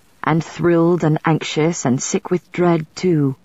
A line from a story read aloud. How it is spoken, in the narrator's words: he said softly